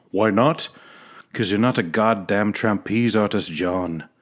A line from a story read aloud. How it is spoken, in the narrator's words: he yells